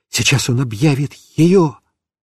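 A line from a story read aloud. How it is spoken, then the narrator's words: Whispered. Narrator (Russian): я шептал папе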